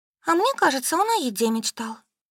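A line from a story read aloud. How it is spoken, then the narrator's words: Sighing. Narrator (Russian): вздохнув, сказала Солька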